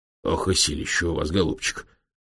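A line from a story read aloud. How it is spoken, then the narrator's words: Wary, curious mutter. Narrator (Russian): пробормотал он, смотря на профессора с опасливым любопытством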